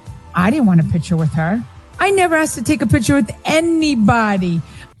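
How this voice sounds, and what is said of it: New Jersey accent. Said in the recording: “that Jersey accent's annoying as hell”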